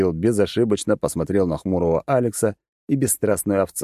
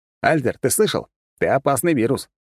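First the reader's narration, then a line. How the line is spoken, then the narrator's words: Smirking grunt. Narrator (Russian): хмыкнул я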